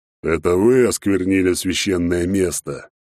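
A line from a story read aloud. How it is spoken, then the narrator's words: Half-growled, dragon. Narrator (Russian): то ли сказал, то ли прорычал черный дракон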